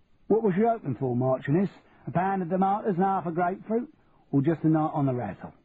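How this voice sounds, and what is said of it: Cockney accent. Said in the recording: “what happened to your Cockney accent? ... That's more like it.”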